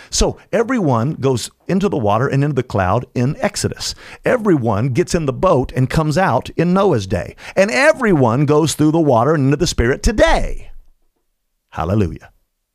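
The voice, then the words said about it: Loud, raised excited preaching voice. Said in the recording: “I'm excited about it. I'm not mad. I'm just raising my voice”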